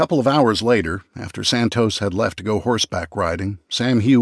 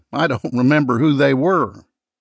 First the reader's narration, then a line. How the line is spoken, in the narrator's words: he said with a chuckle